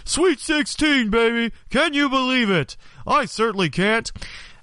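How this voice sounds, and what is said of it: Bad Dick Vitale impression. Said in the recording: “that horrible Dick Vitale impersonation”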